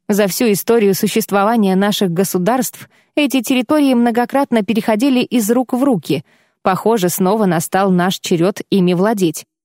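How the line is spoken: Jovial chuckle. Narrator (Russian): хохотнул он, явно пребывая в благодушном настроении

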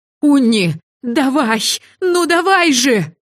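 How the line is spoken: Wailing. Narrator (Russian): взвыла я

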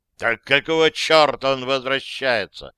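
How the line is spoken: Roaring. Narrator (Russian): взревел капитан

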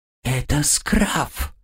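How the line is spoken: Whisper. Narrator (Russian): прошептал посыльный

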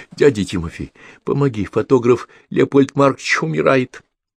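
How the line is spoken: Girl, sobbing. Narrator (Russian): Девочка всхлипывая

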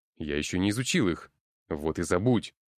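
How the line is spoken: Harsh bark. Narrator (Russian): рявкнул парень

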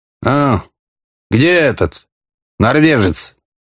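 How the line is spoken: Displeased. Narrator (Russian): недовольным голосом спросил он

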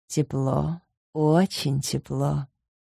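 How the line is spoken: Purring. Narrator (Russian): промурлыкала я

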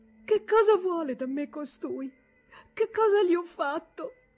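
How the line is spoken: Anguished stammering. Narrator (Italian): con voce angosciata balbettò

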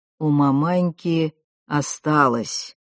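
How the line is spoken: Old man replying. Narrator (Russian): отзывался дед Яков, насмешливо поглядывая на мальчика

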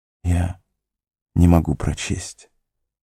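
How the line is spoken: Barely audible. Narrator (Russian): едва слышно произнес Фродо

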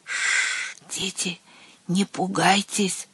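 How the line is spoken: Soothing whisper from afar. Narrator (Russian): прошептало оно оттуда

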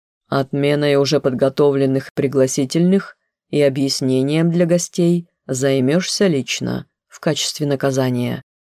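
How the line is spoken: Plain. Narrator (Russian): говорит отец

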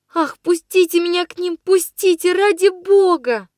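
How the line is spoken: Sobbing. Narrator (Russian): Рыдала я

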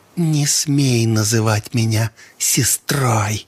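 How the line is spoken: Hissing. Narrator (Russian): зашипела девка

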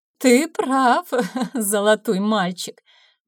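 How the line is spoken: Joyless laugh. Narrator (Russian): невесело рассмеялась Ядвига

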